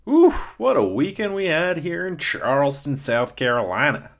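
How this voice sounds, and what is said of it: Put-on Southern US accent. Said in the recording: “Still working on that southern accent.”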